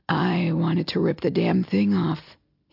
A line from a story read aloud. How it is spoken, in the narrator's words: he mutters